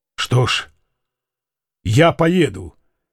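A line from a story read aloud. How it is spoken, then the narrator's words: Calm. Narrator (Russian): сказал Фома спокойно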